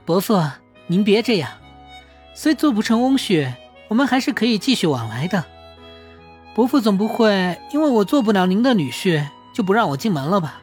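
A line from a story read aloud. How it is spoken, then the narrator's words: Joking, guilty. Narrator (Chinese): 明 眼底闪过愧疚，开着玩笑道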